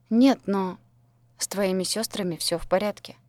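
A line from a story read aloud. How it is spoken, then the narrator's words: Calm. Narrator (Russian): спокойно сообщил Дэн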